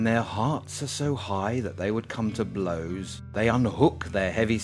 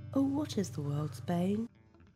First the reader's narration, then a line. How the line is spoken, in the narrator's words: The sun was laughing sweetly